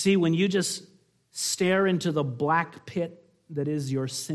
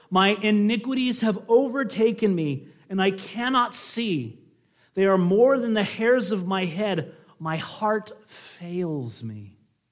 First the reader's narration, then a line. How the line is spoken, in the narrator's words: He cried out to the Lord